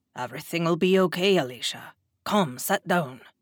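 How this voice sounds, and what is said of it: Thick Scottish accent, kind tone. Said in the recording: “thick Scottish accent ... the kindness in his tone”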